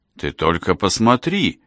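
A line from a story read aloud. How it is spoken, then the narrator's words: Joyful exclamation. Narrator (Russian): радостно воскликнул Томас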